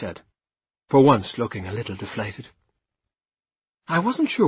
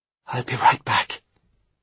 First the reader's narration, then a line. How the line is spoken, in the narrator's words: I whispered to Alice